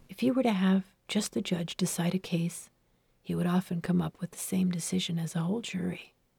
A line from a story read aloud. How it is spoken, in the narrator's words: He whispered